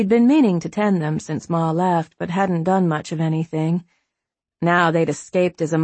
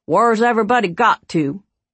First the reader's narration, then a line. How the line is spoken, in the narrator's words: he hollered